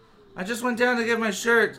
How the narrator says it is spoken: Casey said, his voice trembling

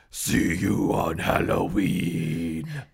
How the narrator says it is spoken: the jack-o'-lantern rasped

